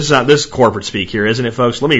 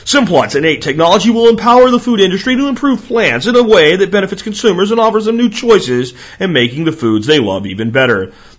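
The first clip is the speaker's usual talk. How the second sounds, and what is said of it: Mock announcer voice. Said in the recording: “Let me read this to you in the announcer voice.”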